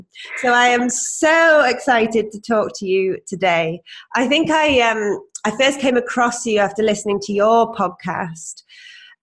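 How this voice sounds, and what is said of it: Congested voice from a cold. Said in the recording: “I have a cold. I like to make that very apparent”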